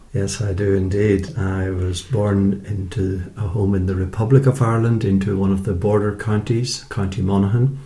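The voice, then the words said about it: Irish accent. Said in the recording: “you have a lovely Irish accent”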